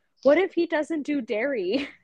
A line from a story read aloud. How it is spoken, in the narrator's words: Suki like randomly turns around and just blurts out